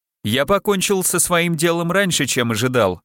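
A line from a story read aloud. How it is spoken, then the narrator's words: Cheerful. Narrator (Russian): сказал весело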